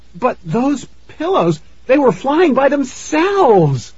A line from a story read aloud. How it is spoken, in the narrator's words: Mom cried